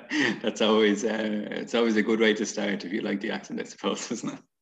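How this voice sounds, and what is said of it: Irish accent. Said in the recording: “you have my favorite accent so far... straight from Ireland”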